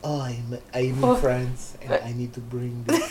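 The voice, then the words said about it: Poor put-on French accent. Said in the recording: “You have to say that in a French accent. ... That's bad.”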